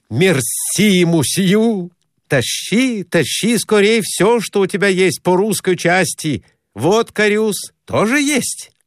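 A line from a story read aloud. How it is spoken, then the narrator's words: Joyful address. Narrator (Russian): Радостно обратился к распорядителю Конурин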